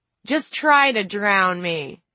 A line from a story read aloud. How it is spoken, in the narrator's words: she called out